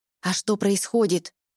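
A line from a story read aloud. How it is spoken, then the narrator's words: Whispered question. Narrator (Russian): шепотом интересуется Гор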